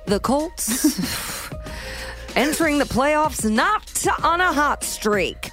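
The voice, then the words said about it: Newscaster voice. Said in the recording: “newscaster voice”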